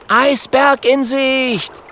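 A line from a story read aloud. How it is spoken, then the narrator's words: Calling out. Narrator (German): ruft Kokosnuss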